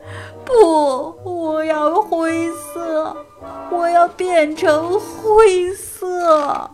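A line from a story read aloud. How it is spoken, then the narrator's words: Wailing sobbing. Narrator (Chinese): 哈瓦尔嚎啕大哭起来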